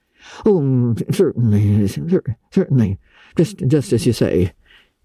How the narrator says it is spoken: stammered unhappy Matthew

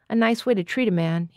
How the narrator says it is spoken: he said

